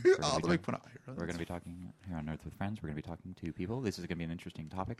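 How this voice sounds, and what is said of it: Very soft, quiet imitation of another person. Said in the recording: “my Ira Glass impression ... I can't speak that soft if I try ... If I talked as quietly”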